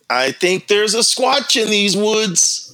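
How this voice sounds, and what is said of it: Mediocre Matt Moneymaker impression. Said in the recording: “Matt Moneymaker impersonation ... That wasn't the best I've heard, but it's all right.”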